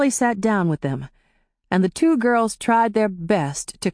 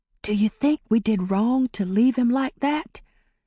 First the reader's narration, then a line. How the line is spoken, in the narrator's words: she whispered to Amari